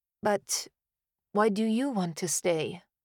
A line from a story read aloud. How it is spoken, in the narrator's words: I said drowsily